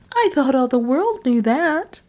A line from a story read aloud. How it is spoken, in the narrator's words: replied my wife sweetly